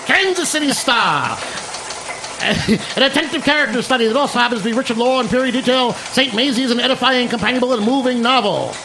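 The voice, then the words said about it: Old-timey radio announcer voice. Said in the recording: “I want to do my old-timey voice ... I want to do my Walter Winchell voice,”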